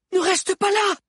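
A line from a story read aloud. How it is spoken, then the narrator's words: Shouting. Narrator (French): cria Liu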